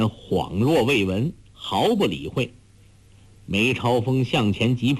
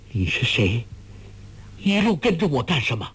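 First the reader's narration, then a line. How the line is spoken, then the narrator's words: Startled, trembling voice. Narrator (Chinese): 不禁大惊，颤声说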